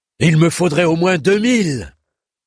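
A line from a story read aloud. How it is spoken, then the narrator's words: Shouting. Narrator (French): criait le grand bâtard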